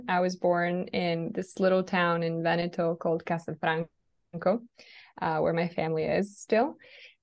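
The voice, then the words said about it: Italian accent. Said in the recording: “I don't know if you can tell by my accent, but I am Italian.”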